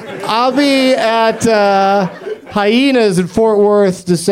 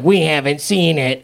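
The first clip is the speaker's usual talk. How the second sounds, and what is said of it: Imitates another person's voice. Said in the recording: “my Greg Proops impression”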